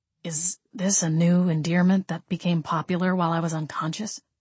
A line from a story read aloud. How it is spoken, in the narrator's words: Gabriel quietly asked